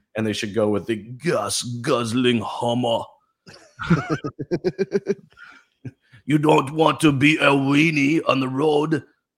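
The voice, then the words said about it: Imitates another person's voice. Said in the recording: “like my best Arnold impression.”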